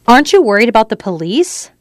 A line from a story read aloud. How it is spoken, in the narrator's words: Vic laughed loudly